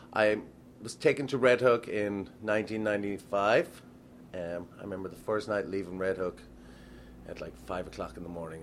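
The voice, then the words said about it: Irish accent. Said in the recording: “I think I'm safe to assume from your accent that you're not native to Red Hook, Brooklyn ... I'm Irish originally”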